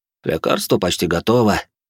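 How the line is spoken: Tired, smiling. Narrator (Russian): устало улыбнулся Шален

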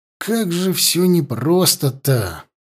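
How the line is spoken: Sigh. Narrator (Russian): вздохнул я

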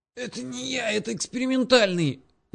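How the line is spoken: Wheezed, half-strangled. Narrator (Russian): засипел полузадушенный Боря

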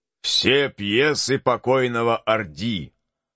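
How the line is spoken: Deep cavernous voice. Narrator (Russian): отвечал тиран своим пещерным голосом

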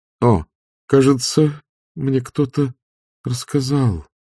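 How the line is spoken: Muttered. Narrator (Russian): пробормотала она

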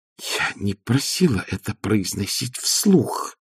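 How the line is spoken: Hiss. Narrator (Russian): прошипела Маград

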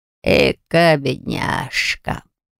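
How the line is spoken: Talking dog's drawl. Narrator (Russian): Протянул говорящий пес в черной шляпе породы корги

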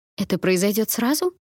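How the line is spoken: Agitated question. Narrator (Russian): взволнованно уточнила Найон

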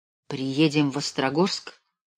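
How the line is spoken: Quiet. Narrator (Russian): тихо произнес я

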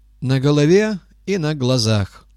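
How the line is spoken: Plain. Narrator (Russian): сказал Габа

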